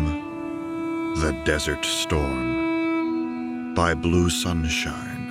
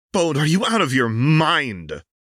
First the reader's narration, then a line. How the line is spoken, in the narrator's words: Cedrin exclaims